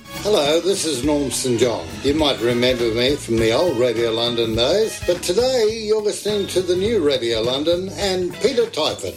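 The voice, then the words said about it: Australian accent. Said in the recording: “came all the way from Brisbane in Australia, hence you can hear it in his accent”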